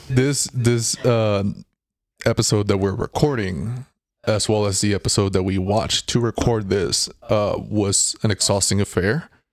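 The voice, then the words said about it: Tired, worn-down voice. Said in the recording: “I'm sure you can hear it in my voice, I'm a little worn down by it ... if you hear us exhausted”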